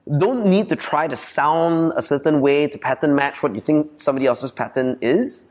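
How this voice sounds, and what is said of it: Malaysian Chinese accent, clearly enunciated. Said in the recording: “I'm like true and true abeng in my core accent ... I grew up in Malaysia ... it's abeng thing that I can't get rid of ... I enunciate”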